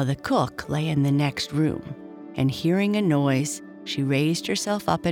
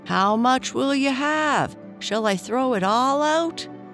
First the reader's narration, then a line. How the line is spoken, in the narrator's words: Tom yelled out again